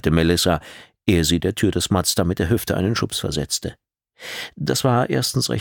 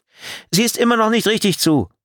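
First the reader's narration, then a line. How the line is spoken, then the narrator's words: Driver calling out. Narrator (German): rief die Fahrerin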